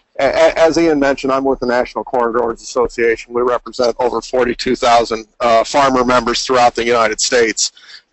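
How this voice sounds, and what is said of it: Slight Southern US accent. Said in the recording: “I've been told I have a bit of a southern accent”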